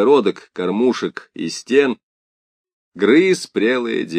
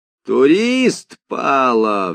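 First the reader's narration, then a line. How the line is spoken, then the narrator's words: Roared. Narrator (Russian): взревел Венька Фомин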